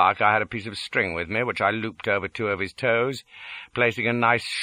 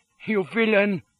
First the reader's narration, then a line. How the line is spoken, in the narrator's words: cries he, sweating with fear